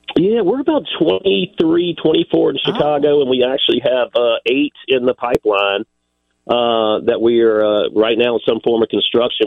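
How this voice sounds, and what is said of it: South Carolina accent. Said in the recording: “I detected the accent. South Carolina is what you said.”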